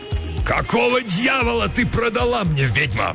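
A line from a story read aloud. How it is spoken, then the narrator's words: Roaring. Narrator (Russian): взревел он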